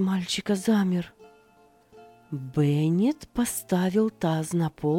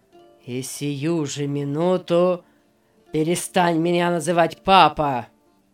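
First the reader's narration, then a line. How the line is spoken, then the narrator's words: Rough. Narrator (Russian): сказал он грубо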